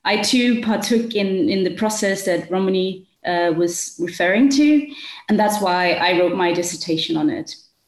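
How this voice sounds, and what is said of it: Danish accent with South African influence. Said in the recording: “I'm with you from Denmark. I've grown up here. I've studied and lived in South Africa for 5 years ... my accent is a bit different”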